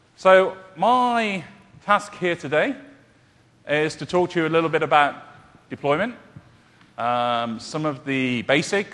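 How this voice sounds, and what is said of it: British accent. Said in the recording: “You might tell by my accent, I'm from the UK. People often mistake it for Australian.”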